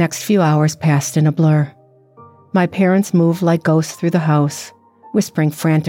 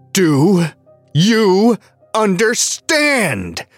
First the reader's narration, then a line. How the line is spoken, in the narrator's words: snarled